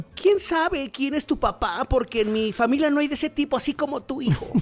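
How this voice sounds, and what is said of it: Man putting on a woman's voice. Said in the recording (Spanish): “voz de mujer ... es de mamá mexicana”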